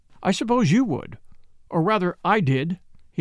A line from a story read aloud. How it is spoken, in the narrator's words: he said